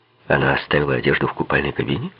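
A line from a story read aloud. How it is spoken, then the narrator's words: Quick follow-up question. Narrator (Russian): быстро переспросил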